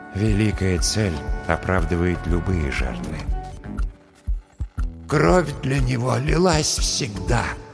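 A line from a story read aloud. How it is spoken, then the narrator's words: Sad inner whisper, dead man. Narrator (Russian): грустно прошептал в моей голове голос мертвого аптекаря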